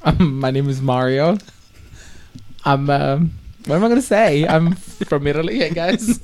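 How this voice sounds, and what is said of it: Italian accent. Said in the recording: “the beautiful accent that you guys hear, it's a beautiful Italian accent.”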